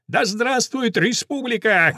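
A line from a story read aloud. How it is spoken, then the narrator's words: Colonel shouting. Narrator (Russian): кричал полковник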